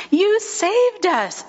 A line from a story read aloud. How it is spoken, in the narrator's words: shouted the frogs